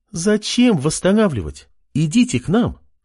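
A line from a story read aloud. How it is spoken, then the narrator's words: Calm reply. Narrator (Russian): спокойно ответила девушка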